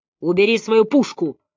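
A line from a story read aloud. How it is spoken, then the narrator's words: Barking. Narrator (Russian): рявкнул он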